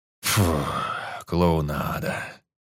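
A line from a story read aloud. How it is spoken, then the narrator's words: Snorting. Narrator (Russian): фыркнул Даркхан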